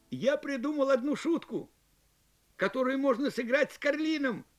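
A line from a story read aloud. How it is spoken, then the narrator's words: Cheerful exclaiming. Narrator (Russian): воскликнул весельчак Джу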